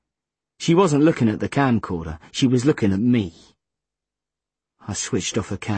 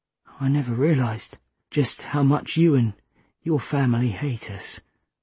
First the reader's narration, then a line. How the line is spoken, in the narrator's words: Seffi whispered